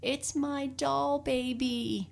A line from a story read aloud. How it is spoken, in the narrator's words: she cried